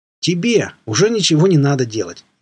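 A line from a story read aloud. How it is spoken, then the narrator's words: Cheerful. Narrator (Russian): весело отозвался Дзот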